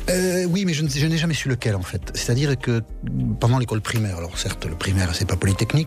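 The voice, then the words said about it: Charming Southwest French accent. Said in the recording (French): “accent du Sud-Ouest ... votre accent charmant ... L'accent du Sud-Ouest n'a rien à voir avec le Sud-Est”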